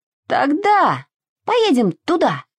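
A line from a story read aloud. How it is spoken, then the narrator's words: Shouted, horse. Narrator (Russian): закричала лошадь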